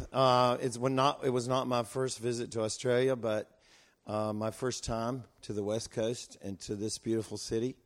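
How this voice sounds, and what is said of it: American Southern accent. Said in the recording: “a southern accent”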